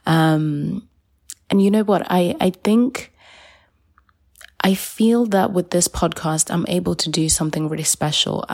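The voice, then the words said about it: Raspy early-morning voice. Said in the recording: “recording this quite early in the morning, so that's why my voice is is on the raspy side”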